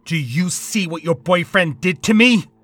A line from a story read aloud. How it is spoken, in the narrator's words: He said, nearly screaming